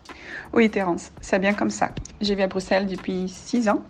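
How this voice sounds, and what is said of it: Brazilian accent speaking French. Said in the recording (French): “mais je suis brésilienne. En effet, tu vas bien comprendre mon accent.”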